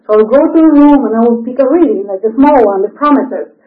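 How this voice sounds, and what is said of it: Non-native English accent. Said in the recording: “I have an accent.”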